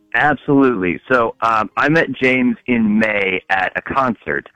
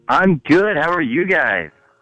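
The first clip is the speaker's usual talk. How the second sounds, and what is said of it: Happy, cheerful voice. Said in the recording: “You sound very happy.”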